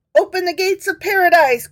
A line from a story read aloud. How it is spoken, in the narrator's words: cried the recording angel